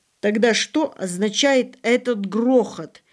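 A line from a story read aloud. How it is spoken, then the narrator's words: Frantic grandmother shouting. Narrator (Russian): вне себя крикнула бабушка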